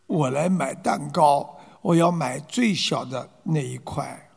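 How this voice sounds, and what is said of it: Quiet, soft-spoken beggar's line. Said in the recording (Chinese): “小声的啊对这个伙计说”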